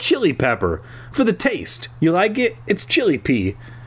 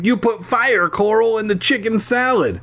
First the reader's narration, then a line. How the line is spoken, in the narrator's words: Alexander laughed